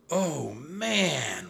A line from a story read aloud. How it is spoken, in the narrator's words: whispered Jack